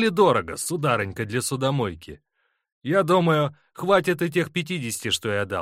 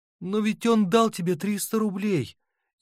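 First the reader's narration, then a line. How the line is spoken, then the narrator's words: Muffled sobbing. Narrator (Russian): И в голосе Фроси слипались приглушенные рыдания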